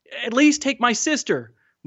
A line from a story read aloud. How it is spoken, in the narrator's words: Mahmoud begged